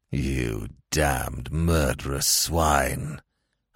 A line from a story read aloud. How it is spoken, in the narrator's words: in a repressed, savage undertone